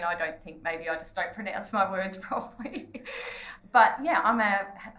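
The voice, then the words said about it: Australian accent. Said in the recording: “you have a thing about your accent. I think it's awesome ... your awesome accent ... I am from Australia, born and bred”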